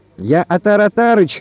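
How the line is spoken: Shout. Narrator (Russian): крикнул он

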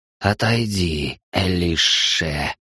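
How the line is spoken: Hissed. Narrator (Russian): прошипел Патагеш за моей спиной

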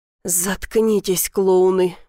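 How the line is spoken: Mild gruff grumble. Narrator (Russian): буркнул, но без особой злости

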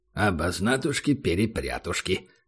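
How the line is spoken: Muttered. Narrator (Russian): пробормотал Убер

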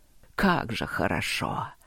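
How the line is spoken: Growl. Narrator (Russian): прорычал хозяин лесов

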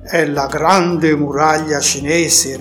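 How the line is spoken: Plain. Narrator (Italian): rispose Pegaso

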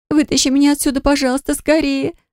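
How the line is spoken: Sobbing. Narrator (Russian): зарыдала я

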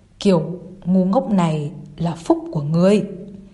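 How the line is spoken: Coughing, stammering speech. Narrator (Vietnamese): ho khan hai tiếng, lắp bắp nói

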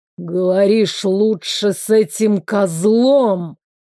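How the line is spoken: Hissed. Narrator (Russian): прошипел он

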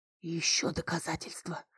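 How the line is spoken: Whisper. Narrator (Russian): снова прошептал он

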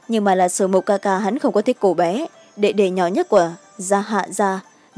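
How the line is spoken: Cold faint laugh. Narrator (Vietnamese): Dạ Hàn Nhật cười nhạt

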